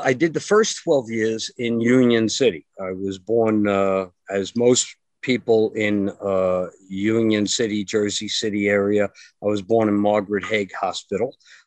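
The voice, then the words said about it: New Jersey accent. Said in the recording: “for all the people in New Jersey, because as you can hear from my voice, that's where I'm from”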